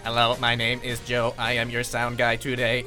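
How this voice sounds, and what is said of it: Robotic android voice. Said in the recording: “I can't do a good Android impersonation. ... That's not good. ... this is what like... Stephen Hawking sounds like.”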